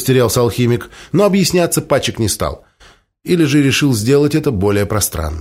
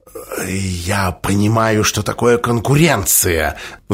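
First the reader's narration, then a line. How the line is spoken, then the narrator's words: Conspiratorial whisper. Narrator (Russian): заговорщицким шепотом ответил алхимик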